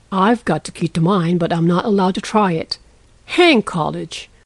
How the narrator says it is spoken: muttered Lorry with an impatient sigh

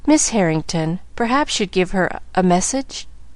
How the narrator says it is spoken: she stammered

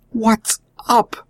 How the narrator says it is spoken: groaned William, starting to his feet

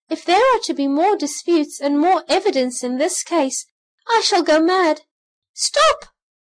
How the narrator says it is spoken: he cried

